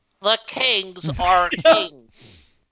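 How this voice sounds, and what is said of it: Nasally nerdy imitated sportscaster voice. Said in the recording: “Do that voice again ... That is how he sounds ... It's like my nasally nerd voice ... he is nasally”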